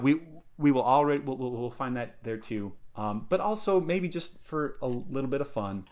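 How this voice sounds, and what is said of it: Usual voice. Nothing is said of it.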